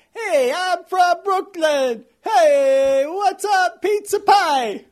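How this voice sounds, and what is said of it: Exaggerated Brooklyn accent. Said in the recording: “I can hear your thick Brooklin accent ... the first time we're hearing that specific accent”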